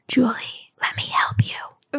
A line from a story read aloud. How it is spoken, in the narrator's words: it whispered in my ear